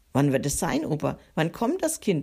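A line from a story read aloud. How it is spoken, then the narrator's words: Very excited question. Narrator (German): fragt Micha ganz aufgeregt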